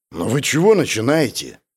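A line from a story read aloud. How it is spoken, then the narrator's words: Unfriendly grumble. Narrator (Russian): проворчал я недобро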